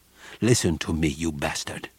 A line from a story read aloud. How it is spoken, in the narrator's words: said coldly